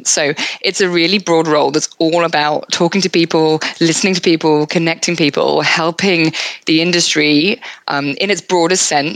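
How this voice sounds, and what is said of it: British accent. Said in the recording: “As everyone can hear from my accent, I am not Australian. I moved from the UK”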